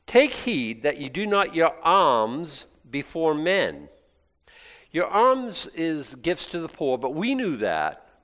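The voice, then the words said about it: Regional accent that drops R sounds. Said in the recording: “with my accent, I might not be coming across it the right ... Every R I dropped”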